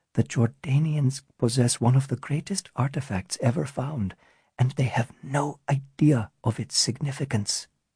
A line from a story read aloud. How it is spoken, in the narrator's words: Natasha whispered, even more quietly this time